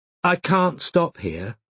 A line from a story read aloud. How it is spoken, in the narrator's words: said Robin, much more calmly than she felt